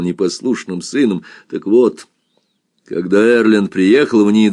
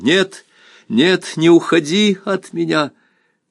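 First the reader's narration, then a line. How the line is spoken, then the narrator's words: Loud shout. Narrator (Russian): Кристин громко закричала ему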